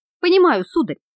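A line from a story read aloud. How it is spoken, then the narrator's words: Cheerful shout. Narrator (Russian): весело вскричал машинист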